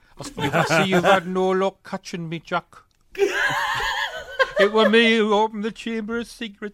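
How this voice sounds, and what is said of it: Northeastern English accent, Hagrid impression. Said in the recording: “Wearside Hagrid ... Someone with a northeastern accent.”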